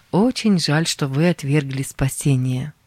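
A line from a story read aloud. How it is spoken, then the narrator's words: Plain. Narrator (Russian): сказал я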